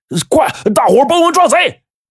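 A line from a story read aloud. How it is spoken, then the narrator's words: Loud shout. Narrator (Chinese): 王大伟大声的就喊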